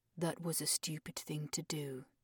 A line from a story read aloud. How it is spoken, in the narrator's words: Alexander murmured